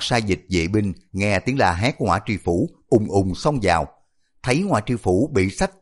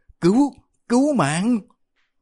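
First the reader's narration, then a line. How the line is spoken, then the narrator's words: Terrified shrieking. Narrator (Vietnamese): Ngõa tri phủ sợ điếng cả hồn, tru tréo kêu lên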